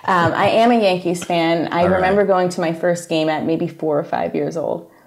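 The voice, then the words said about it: Slight New York accent. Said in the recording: “I have a bit of an accent. ... they always know within like 20 seconds, you're from New York.”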